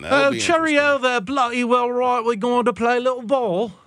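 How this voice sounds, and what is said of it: Put-on British accent. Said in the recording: “From jolly old England. ... British accent ... when you speak a British accent, you can say the most ridiculous things and people accept it because it's a pretty voice”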